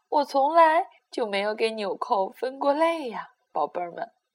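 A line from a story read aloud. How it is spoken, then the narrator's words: Laughing grandmother. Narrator (Chinese): 外婆笑了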